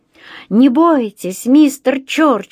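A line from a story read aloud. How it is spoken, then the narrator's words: Yelling. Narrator (Russian): завопил он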